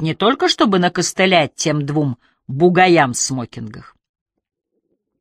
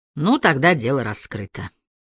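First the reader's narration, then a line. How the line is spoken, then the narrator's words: Dry. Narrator (Russian): сухо сказал Харри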